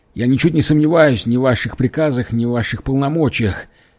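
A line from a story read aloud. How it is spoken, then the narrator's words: Trembling rapid chatter. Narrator (Russian): дрожащим голосом затараторил Экинс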